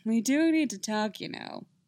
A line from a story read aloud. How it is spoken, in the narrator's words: he laughs